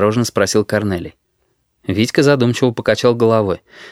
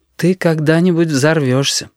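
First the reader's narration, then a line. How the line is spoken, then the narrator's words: Sad prediction. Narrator (Russian): печально предрекла Анда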